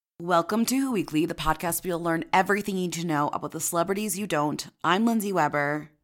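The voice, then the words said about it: Groggy morning voice. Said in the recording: “my voice is morning voice”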